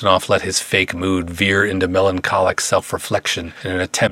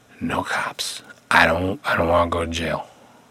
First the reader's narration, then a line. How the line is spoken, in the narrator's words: Bentonoff angrily shook his head before whispering